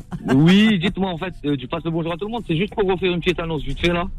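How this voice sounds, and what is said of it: Parisian French accent. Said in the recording (French): “je suis parisien quand même, du bas ... t'as un accent parisien pire que nous”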